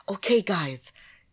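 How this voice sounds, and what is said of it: Excited imitation of another person's voice. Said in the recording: “I love the sound of his voice and the way he talks ... That's my imitation of him”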